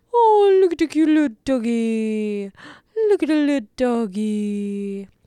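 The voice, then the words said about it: Weird cutesy voice for talking to dogs. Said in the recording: “in a weird voice ... Those are my little doggy voices”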